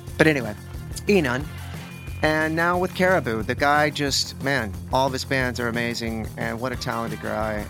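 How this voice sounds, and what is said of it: Texan accent. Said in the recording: “I'm from Texas and I have a dumb accent.”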